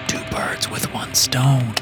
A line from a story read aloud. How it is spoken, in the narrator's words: I whispered